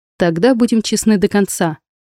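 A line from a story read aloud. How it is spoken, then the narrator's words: Wry snort. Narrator (Russian): хмыкнул Михаил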